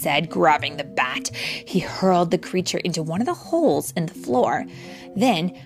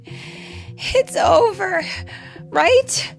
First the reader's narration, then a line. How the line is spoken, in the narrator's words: Jay sighed